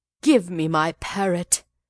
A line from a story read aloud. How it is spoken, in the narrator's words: he cried